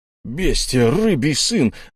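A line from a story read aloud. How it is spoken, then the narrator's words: Roaring. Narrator (Russian): взревел он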